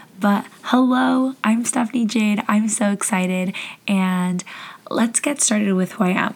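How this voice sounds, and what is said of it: Voice fading, losing voice. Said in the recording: “my voice is going out on me”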